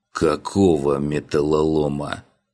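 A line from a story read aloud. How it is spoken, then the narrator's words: Dawning realization groan. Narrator (Russian): Уже догадываясь, простонал я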